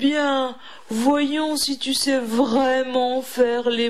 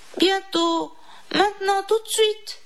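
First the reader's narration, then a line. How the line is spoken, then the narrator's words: Exclaiming. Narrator (French): s'écria Didi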